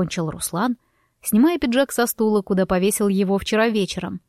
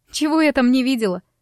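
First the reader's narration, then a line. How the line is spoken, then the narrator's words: Snorting. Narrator (Russian): фыркнула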